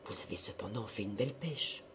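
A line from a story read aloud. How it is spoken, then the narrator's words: Murmuring. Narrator (French): Elle murmura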